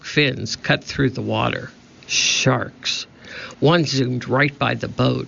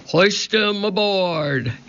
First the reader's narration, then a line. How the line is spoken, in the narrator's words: Cap'n Bones shouted to his men